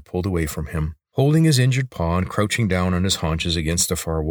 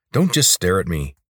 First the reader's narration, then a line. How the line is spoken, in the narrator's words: snapped